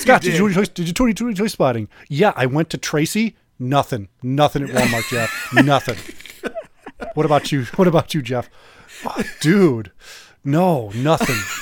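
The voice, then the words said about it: Imitates another person's voice. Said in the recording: “does a great impersonation of you, Jeff”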